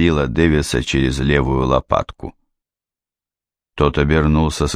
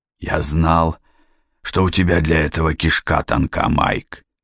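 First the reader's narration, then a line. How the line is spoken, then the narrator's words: Angry rasp. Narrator (Russian): злобно прохрипел Генри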